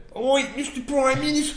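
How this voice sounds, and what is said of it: Deliberately bad Australian accent. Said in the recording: “the Australian accents are actually really shitty in that episode ... They're just bad”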